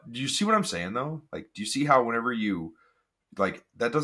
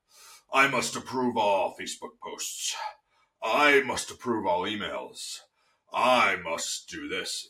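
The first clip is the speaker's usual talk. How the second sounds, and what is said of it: Evil villain voice. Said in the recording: “a super awesome, like, evil villain voice.”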